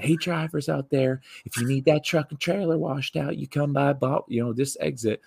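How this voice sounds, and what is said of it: Cute young woman's southern accent. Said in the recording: “young, cute sounding girl ... they got this real cute southern accent.”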